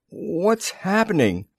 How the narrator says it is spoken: groaned Arch

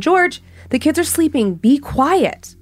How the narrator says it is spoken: My mom called out from the kitchen

